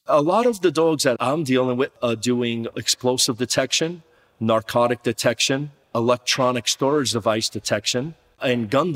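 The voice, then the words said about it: New Jersey accent. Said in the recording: “known affectionately as the dog father, thanks to his New Jersey accent”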